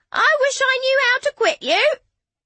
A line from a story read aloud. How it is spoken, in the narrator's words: Lady Carcar greeting him with a robust screech and a cry of